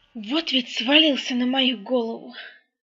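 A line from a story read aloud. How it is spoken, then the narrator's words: Old grumbling voice. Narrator (Russian): ворчал старый феникс-учитель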